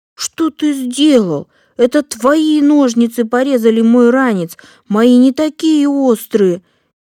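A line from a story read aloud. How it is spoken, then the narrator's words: Frightened shout. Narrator (Russian): Испуганно закричал Эдик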